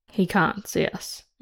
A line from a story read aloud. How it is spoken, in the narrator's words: Una murmurs